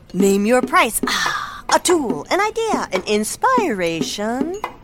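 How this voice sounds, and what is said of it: Beat poet voice. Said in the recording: “my impression of a beat poet”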